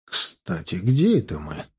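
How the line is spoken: Surprised mutter. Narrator (Russian): удивленно пробормотал Стас

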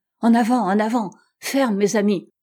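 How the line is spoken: Frenzied hunting cry. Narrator (French): s'écriait Simpson, possédé de la furie de la chasse

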